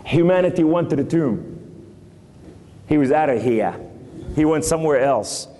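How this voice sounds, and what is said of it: New York accent. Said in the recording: “Excuse my New York accent.”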